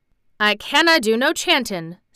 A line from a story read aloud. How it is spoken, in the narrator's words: said Ben Weatherstaff a trifle testily